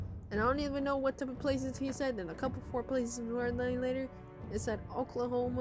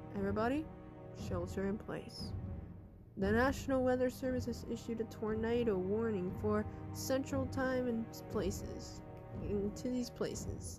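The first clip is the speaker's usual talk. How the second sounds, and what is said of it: Scary announcer voice. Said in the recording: “it was a scary voice.”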